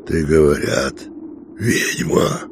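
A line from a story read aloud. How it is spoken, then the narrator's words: Hoarse. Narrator (Russian): Сипло сказал он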